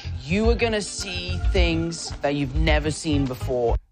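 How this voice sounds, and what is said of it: Speaker with a noticeable accent. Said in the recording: “I love his accent.”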